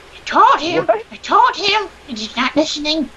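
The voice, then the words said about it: Old woman voice, Midwestern-sounding. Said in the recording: “do an old woman voice... You sound Midwestern even in your accent. Like, even when you're pretending.”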